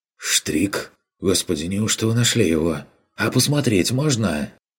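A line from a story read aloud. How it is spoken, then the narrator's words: Timid hopeful request. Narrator (Russian): С робкой надеждой попросил тот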